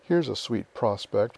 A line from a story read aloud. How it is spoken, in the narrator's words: muttered Joe